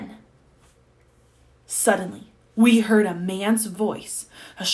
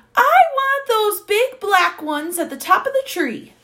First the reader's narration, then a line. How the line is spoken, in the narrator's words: was shouting